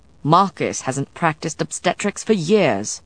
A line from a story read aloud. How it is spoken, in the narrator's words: Matthew grumbled